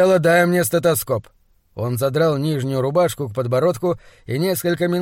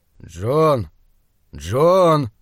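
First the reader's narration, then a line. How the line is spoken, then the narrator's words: Soft, sighing. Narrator (Russian): Доктор вздохнул и мягко сказал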